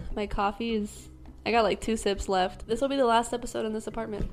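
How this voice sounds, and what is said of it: Worn-out, nearly gone voice. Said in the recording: “my voice is almost gone”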